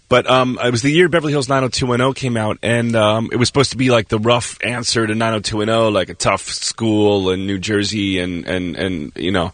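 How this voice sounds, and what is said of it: Hoarse, strained voice. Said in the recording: “Sorry if I lost my voice. I have a little bit cold.”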